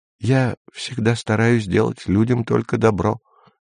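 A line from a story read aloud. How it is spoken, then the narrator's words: Calm objection. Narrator (Russian): спокойно возразил Ван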